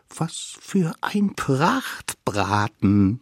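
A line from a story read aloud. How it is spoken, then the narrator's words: Quiet cheering. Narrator (German): jubelten sie leise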